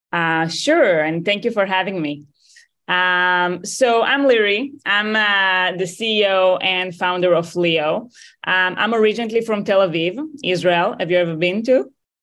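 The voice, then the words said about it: Israeli-accented English. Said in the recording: “I could tell it was an Israeli accent”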